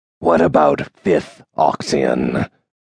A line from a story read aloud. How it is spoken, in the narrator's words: Quichan growled